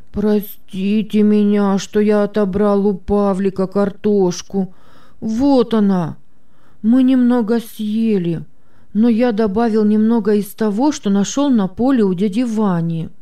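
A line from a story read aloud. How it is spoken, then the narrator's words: Sobbing after heavy sigh. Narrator (Russian): Петя тяжело вздохнул и, всхлипывая, произнес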